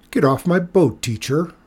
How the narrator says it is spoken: Rico said scornfully

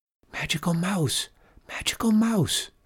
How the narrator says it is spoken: she whispered

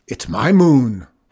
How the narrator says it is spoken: roared Zeke

